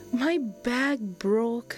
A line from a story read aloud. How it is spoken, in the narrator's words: Kian replied sadly